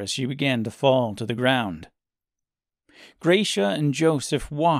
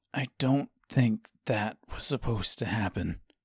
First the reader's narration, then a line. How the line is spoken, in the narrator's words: said Joseph quietly, nervously